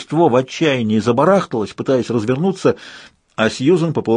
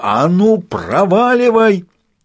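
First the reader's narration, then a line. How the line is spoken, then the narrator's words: Commanding teacher's yell. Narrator (Russian): Сьюзан призвала себе на помощь всю унаследованную мощь смертоносного голоса плюс навыки школьной учительницы младших классов и заорала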